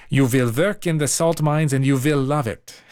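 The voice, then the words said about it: Put-on foreign accent. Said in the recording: “I'm trying to do the accent I think Mary's intending”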